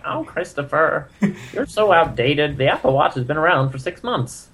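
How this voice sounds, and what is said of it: Old lady 1920s talkie voice. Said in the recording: “my mother sounds like she's from some, like, late Buster Keaton talkie movie ... that's my old lady voice / 1920s detective”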